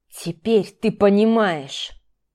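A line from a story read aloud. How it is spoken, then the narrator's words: Hissed. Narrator (Russian): прошипел Дима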